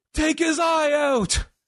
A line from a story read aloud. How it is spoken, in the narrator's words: a heckler, this dude yells